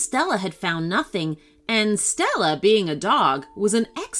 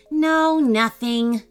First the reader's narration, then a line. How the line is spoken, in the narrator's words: said Gavin sadly